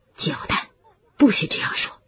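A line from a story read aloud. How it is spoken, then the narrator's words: Low voice. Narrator (Chinese): 麦克教授低声地说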